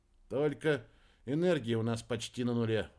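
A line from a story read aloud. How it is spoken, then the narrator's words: Sigh. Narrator (Russian): вздохнул Кольдер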